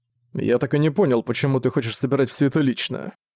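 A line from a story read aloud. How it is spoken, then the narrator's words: Grumbling. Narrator (Russian): проворчал Зориан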